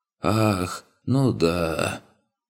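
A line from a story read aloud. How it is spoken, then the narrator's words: Heavy, feigned sigh. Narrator (Russian): Гверт еще раз тяжело вздохнул, причем в его вздохе присутствовала известная доля притворства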